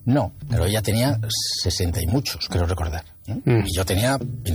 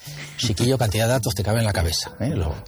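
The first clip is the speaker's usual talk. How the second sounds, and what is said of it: Weak imitation of Andalusian accent. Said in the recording (Spanish): “de imitar el acento andaluz, flojetillo”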